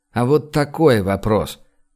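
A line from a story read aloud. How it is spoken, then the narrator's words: Mocking tone. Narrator (Russian): издевательским тоном сообщил Гош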